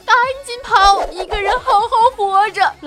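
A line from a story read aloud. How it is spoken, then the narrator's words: Husband crying, desperate. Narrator (Chinese): 老公一边哭一边对老婆说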